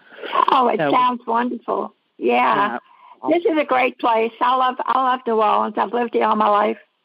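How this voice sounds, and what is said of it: New Orleans accent. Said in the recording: “I can tell by your accent.”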